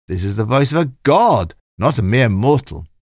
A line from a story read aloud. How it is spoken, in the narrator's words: The people flattered him and shouted